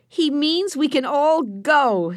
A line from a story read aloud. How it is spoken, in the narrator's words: shouted Benny